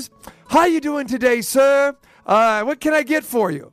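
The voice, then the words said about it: Weak imitation British accent. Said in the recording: “I detect a British accent. Even though my British accent isn't very good.”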